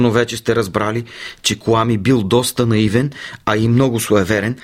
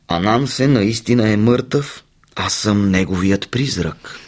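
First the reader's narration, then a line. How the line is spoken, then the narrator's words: Cold reply. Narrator (Bulgarian): Паякът отвърнал хладно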